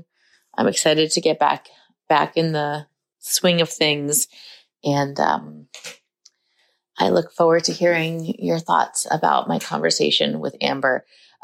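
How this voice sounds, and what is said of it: Slightly nasal, congested voice. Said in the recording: “I sound a little nasally because I got sick”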